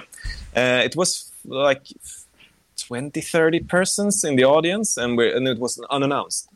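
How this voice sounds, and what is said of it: German accent. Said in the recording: “Sorry for the German accent.”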